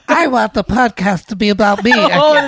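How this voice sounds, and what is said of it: Baby voice. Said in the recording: “I can't do a baby voice ... can you do a baby? ... That's pretty good.”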